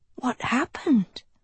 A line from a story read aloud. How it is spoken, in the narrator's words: Sophie breathed